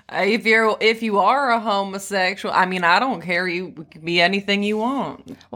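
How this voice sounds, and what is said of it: Put-on Southern Raleigh wine-mom accent. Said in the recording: “wine moms being like... that accent... Raleigh accent”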